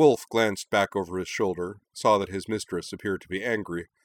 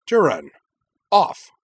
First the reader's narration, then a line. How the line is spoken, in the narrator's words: cry sharply